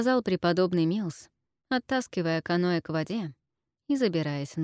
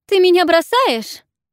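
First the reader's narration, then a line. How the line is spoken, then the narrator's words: Shouted after someone leaving. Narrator (Russian): крикнула Накита, когда тот отплыл от берега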